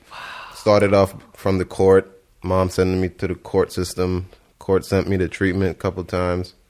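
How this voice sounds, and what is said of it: Speaks with a noticeable accent. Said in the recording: “I love his accent. ... You hear my accent?”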